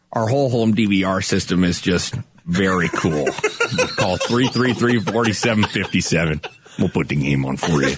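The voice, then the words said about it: Imitates another person's voice. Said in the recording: “would you like to do a Clint Hartung?”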